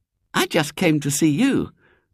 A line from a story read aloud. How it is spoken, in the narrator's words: said Ginger, then added hastily